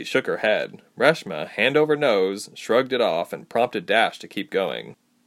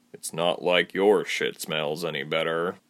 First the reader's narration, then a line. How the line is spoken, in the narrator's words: muttered